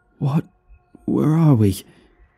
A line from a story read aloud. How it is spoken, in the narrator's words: gasped out